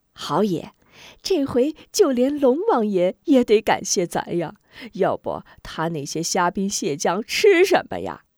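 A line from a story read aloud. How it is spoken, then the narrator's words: Laughing happily. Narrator (Chinese): 说着，边豪与众匪一起开心大笑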